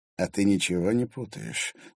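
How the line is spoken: Quiet question. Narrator (Russian): тихо поинтересовался Закревский

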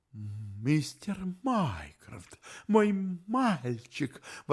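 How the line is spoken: Astonished exclamation. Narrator (Russian): воскликнул он в изумлении

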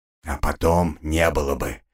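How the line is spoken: Choked hoarse wheeze. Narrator (Russian): просипел задушенно

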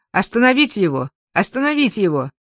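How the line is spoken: Shout. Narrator (Russian): я крикнул им

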